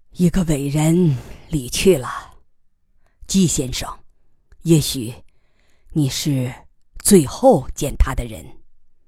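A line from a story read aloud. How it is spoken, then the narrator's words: Sighing general. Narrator (Chinese): 将军叹息着说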